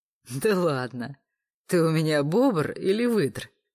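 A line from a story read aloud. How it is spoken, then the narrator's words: Laughing. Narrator (Russian): рассмеялся Олег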